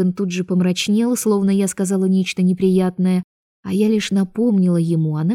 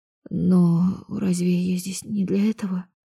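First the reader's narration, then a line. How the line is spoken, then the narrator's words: Quiet reminder. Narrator (Russian): Тихо напомнила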